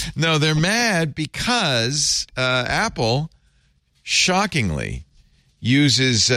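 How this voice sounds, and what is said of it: Usual voice. Nothing is said of it.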